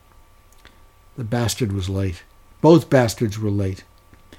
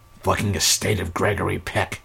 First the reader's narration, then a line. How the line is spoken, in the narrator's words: muttered